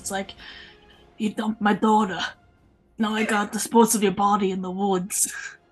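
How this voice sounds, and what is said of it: Bad Italian mobster accent. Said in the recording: “this accent of yours, because I don't know if that was mobster or a really bad mobster British crossover ... I was trying to be Italian”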